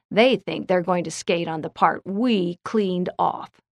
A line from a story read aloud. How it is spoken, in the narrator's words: Bill declared angrily